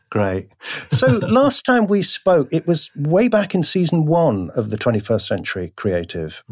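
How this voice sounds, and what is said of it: Smooth British accent. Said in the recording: “your mellifluous British accent echoing in my ears”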